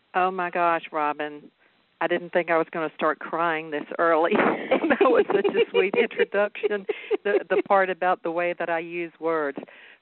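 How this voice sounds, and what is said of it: Southern American accent. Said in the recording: “my Southern accent ... without an accent, maybe a reporter voice. Well, I am like Southern fried”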